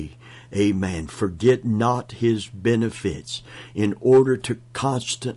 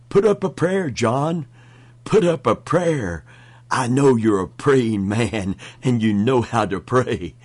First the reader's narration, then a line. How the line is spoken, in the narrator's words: Terrified, the one shouted to the other